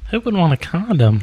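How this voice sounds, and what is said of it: Redneck woman character voice. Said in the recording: “love your redneck chick impersonation ... It's basically dead on. ... Redneck whore.”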